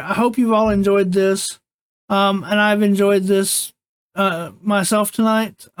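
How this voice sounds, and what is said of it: Unwell, strained voice. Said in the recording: “Despite being a little under the weather, I do apologize for my voice.”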